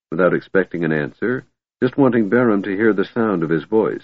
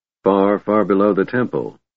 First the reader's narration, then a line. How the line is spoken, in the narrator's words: Barham replied in a hollow tone